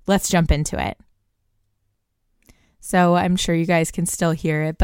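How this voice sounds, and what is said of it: Congested voice from a cold. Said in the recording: “I have a bit of a cold right now, so my voice is a little wonky”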